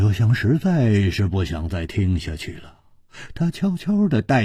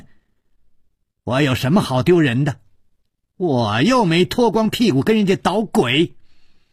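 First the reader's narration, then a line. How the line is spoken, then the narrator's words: Loud shouting. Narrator (Chinese): 薛红红…大声地叫着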